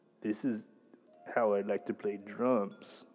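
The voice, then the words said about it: Imitates another person's voice, poorly. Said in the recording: “terrible Joey impersonation”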